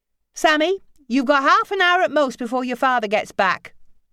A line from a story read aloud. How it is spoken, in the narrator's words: she shouted up to her daughter